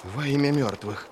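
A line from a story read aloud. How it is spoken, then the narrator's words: Frightened gasp. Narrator (Russian): выдохнул Ищейка, разинув рот от страха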